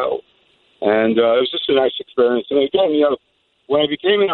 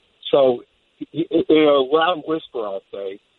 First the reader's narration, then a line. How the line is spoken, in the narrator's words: he yelled at my mother